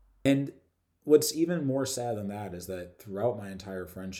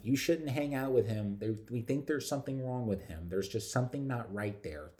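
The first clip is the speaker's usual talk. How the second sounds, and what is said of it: Imitates another person's voice. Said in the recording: “That's my best mom impression.”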